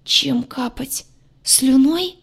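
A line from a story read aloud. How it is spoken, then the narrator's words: Strangled hoarse wheeze. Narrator (Russian): сдавленно прохрипел посеревший двор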